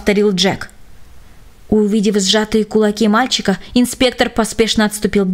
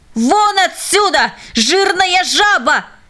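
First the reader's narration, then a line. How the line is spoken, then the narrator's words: Hateful contemptuous shout. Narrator (Russian): глубоко укоренившаяся в его сердце ненависть и презрение к этому человеку взяли верх, и он закричал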